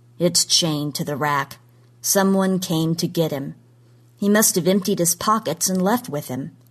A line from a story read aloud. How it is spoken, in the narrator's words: said flatly